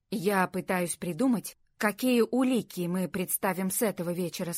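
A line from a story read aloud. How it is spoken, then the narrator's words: Plain. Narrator (Russian): сказал Джейми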